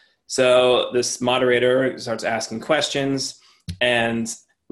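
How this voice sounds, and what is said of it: Usual voice. Nothing is said of it.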